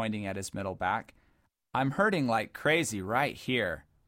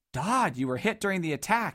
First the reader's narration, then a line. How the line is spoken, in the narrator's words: exclaimed Bowler